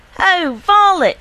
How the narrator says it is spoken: cried

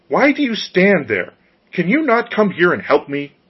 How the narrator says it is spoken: He glared at the girls with his fiery eyes and cried

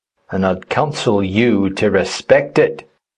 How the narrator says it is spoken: growled the other

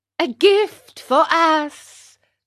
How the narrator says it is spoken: cried the fox, pretending to be insulted

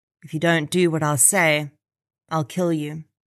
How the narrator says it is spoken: whispered in her ear

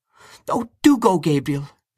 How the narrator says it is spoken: she cried

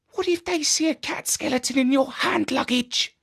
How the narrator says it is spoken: asked Jeremy in a whisper

